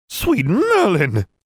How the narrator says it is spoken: Madame Pomfrey exclaimed

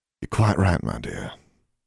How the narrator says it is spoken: she spoke softly

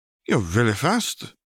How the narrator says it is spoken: she gasped, her cheeks reddening

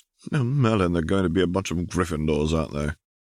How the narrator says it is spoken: Ignis laughed

